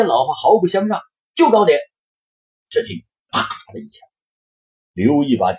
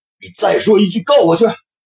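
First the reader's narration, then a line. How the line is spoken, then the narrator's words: Murderous roar. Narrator (Chinese): 刘毅杀机顿起的吼道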